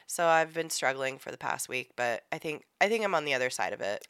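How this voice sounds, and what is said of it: Sick, rough-sounding voice. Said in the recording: “I sound terrible... My voice is really bugging you”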